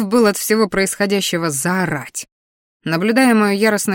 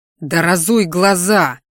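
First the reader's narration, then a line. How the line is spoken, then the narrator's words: Growled. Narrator (Russian): рыкнул я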